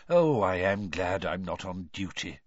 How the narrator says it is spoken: muttered Mr

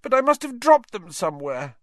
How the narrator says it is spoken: Neville was saying tearfully

